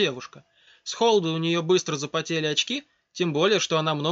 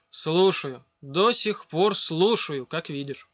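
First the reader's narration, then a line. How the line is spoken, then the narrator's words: Sighing. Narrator (Russian): вздохнул Рома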